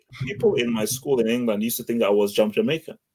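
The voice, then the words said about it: African accent. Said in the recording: “you had an African accent ... You can clearly hear from my voice that my accent has nothing to do with Jamaican”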